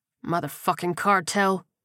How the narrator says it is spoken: Leon muttered

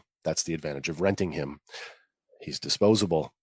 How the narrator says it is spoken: Luthen answers coldly

